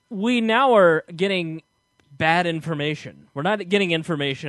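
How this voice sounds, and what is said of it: Usual voice. Nothing is said of it.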